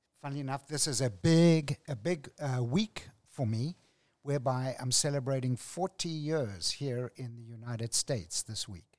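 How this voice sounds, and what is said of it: Distinctive non-American accent. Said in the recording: “we have someone with a very special accent”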